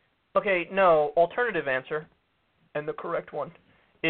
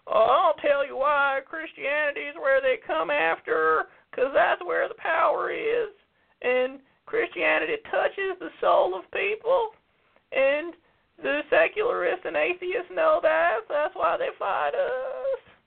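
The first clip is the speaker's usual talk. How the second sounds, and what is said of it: Old man voice imitating Pat Robertson. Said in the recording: “That's not Pat Robertson's accent. I gotta do my old man voice.”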